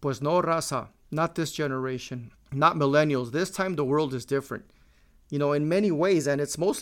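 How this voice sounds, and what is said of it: Usual voice. Nothing is said of it.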